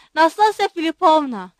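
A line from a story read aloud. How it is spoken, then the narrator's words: Shouted. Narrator (Turkish): diye bağırdı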